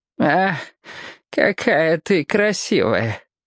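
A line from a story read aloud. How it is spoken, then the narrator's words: Sighing old man. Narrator (Russian): Вздохнул старик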